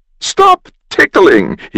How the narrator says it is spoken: he gasped

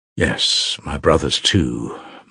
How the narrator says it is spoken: murmured Alyosha, pondering

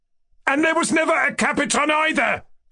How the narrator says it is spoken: cried Ganya, thoroughly exasperated

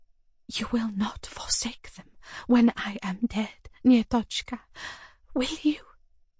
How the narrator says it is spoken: She said in a whisper, as though afraid someone might overhear us

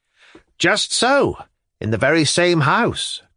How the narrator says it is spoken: cried Liputin

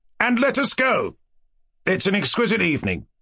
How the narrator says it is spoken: cried Yevgeny Pavlovich

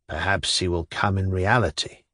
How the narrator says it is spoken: Shatov muttered in an undertone

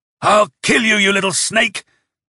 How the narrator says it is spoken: shouted hoarsely

